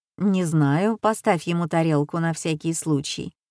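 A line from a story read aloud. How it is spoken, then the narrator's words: Plain. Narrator (Russian): ответила я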